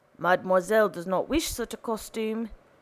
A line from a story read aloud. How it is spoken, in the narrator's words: gruffly responded Mephisto